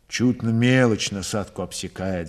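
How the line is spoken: Sigh. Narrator (Russian): вздохнул Григорий

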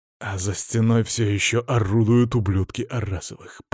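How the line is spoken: Growl. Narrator (Russian): прорычал

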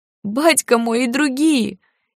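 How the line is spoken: Sobbing convulsively. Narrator (Russian): Еще сильнее расплакался тот, судорожно всхлипывая

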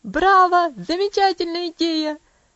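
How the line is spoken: Enthusiastic shout. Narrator (Russian): закричал Хэролд

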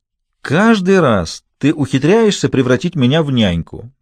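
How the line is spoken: Cheerful. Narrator (Russian): весело продолжал он

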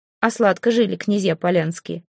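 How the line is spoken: Wry snort. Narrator (Russian): хмыкнул Асмунд

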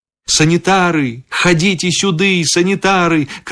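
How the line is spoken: Sudden loud shout. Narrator (Belarusian): крыкнуў я раптам голасна

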